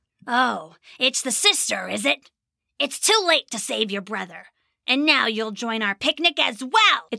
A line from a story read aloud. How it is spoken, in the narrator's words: It snarled